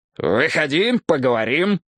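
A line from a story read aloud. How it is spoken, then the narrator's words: Growled. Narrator (Russian): прорычал я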